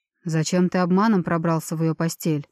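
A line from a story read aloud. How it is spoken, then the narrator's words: Stern half-elf question. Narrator (Russian): строго спросил полуэльф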